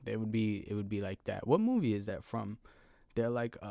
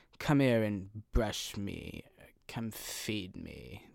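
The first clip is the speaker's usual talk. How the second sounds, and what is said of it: Condescending cartoon-bird style cat voice. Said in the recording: “They would be very condescending... They'd have that type of accent... They would sound like the bird from The Lion King”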